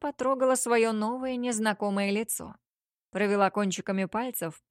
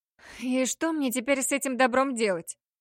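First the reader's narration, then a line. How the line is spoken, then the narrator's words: Irritated sigh, higher melodic voice. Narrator (Russian): Раздраженно вздохнула она, и голос прозвучал выше и мелодичнее, чем ее собственный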